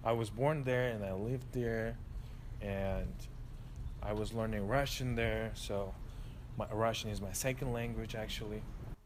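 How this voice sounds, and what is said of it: Uzbek accent. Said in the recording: “I got my accent from Uzbekistan.”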